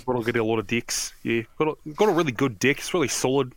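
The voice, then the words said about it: Put-on New Zealand accent. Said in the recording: “if you talk about this in a Kiwi accent, it sounds a lot funnier.”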